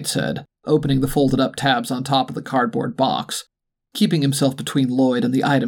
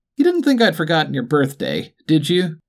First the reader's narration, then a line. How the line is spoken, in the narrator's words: Dwight said, laughing